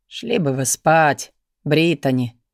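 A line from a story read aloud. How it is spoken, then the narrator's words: Soft, tired advice. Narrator (Russian): мягко, устало посоветовал господин Диас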